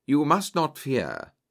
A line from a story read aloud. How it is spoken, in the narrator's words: said soothingly